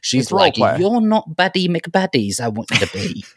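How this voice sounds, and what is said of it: Put-on British accent. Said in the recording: “I love when you do a British accent”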